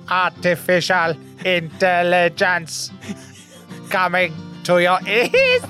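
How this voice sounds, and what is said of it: Weak robot voice. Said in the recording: “do a robot voice... it's weak.”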